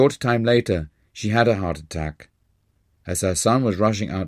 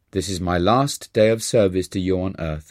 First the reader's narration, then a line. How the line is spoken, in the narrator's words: Roma replied